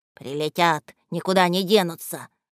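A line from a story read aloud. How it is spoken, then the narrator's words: Grumbled under breath. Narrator (Russian): ворчал себе под нос Малафей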